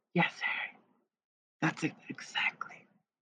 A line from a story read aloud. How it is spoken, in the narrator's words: whispered